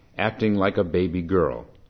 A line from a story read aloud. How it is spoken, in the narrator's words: she said sternly